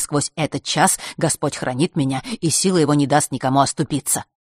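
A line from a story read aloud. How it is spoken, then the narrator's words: Rapid patter near ear. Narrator (Russian): протараторил кто-то над ухом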